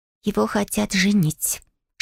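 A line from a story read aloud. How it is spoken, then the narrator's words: Whisper. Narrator (Russian): шепнула мне Фиона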